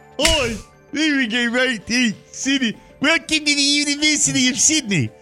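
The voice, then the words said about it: Put-on Australian accent, sounds South African. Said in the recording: “I always get my South African dialect and my Australian dialect confused.”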